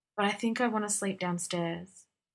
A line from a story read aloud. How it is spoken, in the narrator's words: he murmured